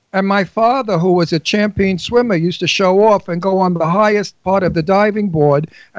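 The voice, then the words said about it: Brooklyn New York accent. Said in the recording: “people say you have such a New York accent... I say no, it's Brooklyn”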